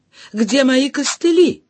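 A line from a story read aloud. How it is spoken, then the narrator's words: Exclaimed. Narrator (Russian): воскликнула я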